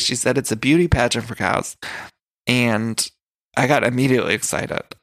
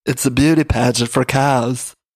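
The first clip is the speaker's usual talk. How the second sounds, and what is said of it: Congested imitation of another person. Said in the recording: “That was my Margaret, you guys... my Margaret impression... My Margaret is just me with a cold... My Margaret's not good, but I'm working on it.”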